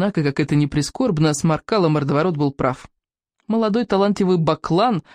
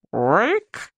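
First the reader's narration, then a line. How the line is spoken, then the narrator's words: Creaky voice. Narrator (Russian): проскрипел Рок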